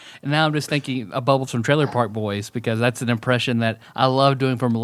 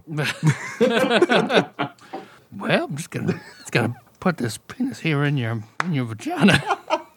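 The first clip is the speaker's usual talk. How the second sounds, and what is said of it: Imitates a TV character's voice. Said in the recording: “your Bubbles impression as Bill Murray”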